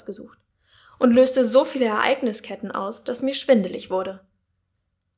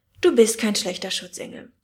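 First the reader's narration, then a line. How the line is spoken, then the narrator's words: Sigh. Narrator (German): seufzte sie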